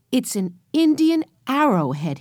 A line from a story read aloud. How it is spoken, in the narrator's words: he cried